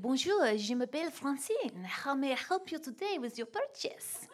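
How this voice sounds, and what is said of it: Put-on French accent. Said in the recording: “I like an accent or two in my preach... it was a French candle shop”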